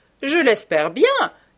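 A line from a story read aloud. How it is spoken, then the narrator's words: Said laughing, hostess. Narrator (French): dit en riant l'hôtesse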